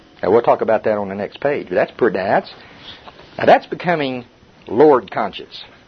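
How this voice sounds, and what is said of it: Oklahoma accent. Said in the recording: “my Oklahoma accent”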